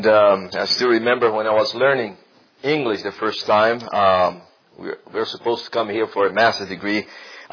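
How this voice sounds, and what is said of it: Non-native English accent. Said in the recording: “as you have realized by my accent, English is not my first language”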